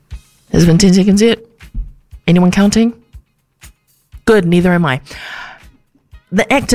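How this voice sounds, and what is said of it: Usual voice. Nothing is said of it.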